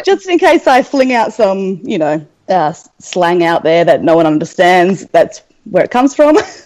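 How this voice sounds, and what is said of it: Australian accent. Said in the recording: “as you can tell from the accent, ... I'm from Australia.”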